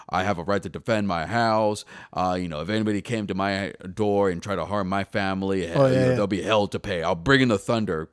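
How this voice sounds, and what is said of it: Imitates another person's voice. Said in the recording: “in their best Liam Neeson impression”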